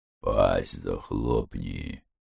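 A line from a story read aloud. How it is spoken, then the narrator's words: Gruff grumble. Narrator (Russian): буркнул лютый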